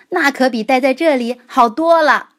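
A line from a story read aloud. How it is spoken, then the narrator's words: Shouted. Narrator (Chinese): 菲尔喊道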